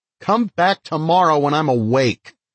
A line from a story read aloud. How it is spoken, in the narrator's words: Trying to sound as indignant as I can manage, I shout